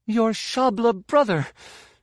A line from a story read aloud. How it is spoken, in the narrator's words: she gasped